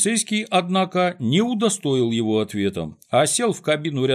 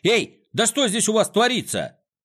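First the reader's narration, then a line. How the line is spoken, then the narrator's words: Shout. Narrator (Russian): закричал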